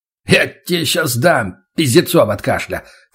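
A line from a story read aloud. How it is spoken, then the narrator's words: Snorting. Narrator (Russian): фыркнул Николаев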